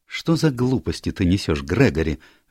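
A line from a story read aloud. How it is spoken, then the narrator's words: Sharp. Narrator (Russian): резко сказала Мэри Марвел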